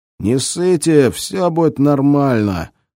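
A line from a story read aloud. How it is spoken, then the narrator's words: Hoarse. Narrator (Russian): хрипло проговорил Берц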